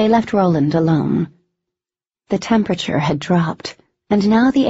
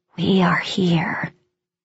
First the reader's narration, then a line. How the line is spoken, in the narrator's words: Announcers shifted and coiled within the shadows, a way of whispering